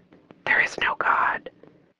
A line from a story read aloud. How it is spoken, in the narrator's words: suddenly got just one decibel louder, and it whispered